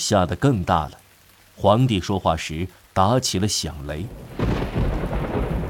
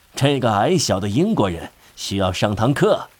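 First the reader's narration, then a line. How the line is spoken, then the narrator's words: Mocking. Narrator (Chinese): 他嘲笑威灵顿，说道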